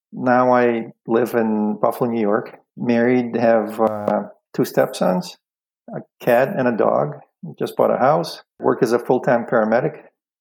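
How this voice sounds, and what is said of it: Belarusian-born speaker's foreign accent. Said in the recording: “born in what used to be the Soviet Union. Now it's country of Belarus ... never lost my accent, as you can probably hear”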